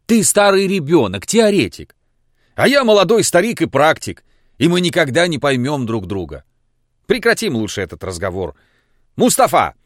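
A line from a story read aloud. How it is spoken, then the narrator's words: Shouted. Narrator (Russian): крикнул Лаевский человеку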